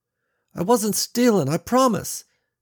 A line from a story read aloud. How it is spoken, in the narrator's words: he said, shifting his weight uneasily from foot to foot